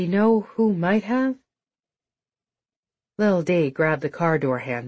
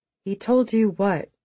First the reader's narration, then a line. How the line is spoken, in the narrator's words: She asked, trying to keep her voice solid